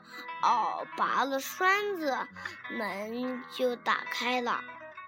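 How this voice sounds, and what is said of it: Wolf faking grandma's gruff voice. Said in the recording (Chinese): “姥姥声音，忽然变得这么粗 ... 大灰狼。装着姥姥的声音说”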